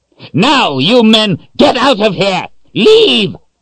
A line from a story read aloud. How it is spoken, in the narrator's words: Zed yelled